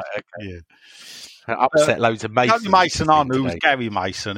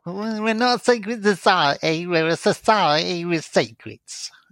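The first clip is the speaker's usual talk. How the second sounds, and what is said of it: Imitates another person's voice. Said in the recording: “Who was that? Larry Grayson. ... That's ... Mason accent.”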